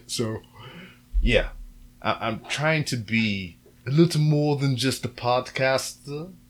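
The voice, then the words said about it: Put-on accent like drunken Madea. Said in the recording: “I don't know what accent that is, but this is the one that I'm using. It almost sounds like a drunken Madea.”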